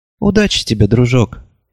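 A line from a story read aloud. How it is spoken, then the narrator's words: Soft, gentle. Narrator (Russian): мягко сказала Шармен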